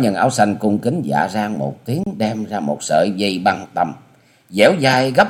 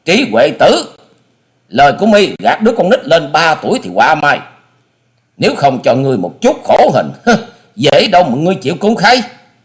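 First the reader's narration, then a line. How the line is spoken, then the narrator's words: Angry loud scream. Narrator (Vietnamese): Hà Xà Tiên Tử giận dữ thét to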